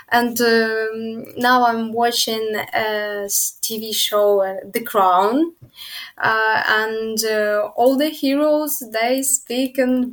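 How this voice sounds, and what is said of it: British accent, like the Queen. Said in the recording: “You're actually speaking like the Queen of England. I love those details in your accent.”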